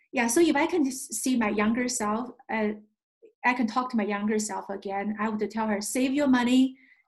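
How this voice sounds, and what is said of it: Speaks with a foreign accent. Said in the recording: “your accent gives you the credibility ... I do not worry about my accent at all”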